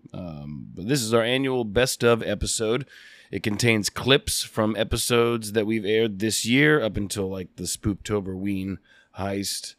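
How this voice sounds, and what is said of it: Sick, strained voice. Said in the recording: “Sorry about my voice, I'm very sick.”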